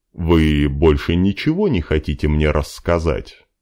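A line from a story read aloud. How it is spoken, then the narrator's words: Growling. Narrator (Russian): Димка зарычал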